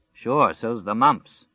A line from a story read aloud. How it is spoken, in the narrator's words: Glenn Bateman said dryly